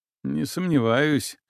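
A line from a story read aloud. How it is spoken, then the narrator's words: Wry grunt. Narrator (Russian): хмыкнул я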